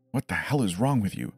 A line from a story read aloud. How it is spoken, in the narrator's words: hissing